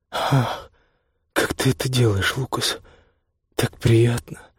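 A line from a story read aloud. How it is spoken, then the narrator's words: Breathless exhale. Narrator (Russian): выдохнула Пинки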